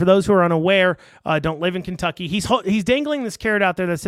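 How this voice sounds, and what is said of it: Usual voice. Nothing is said of it.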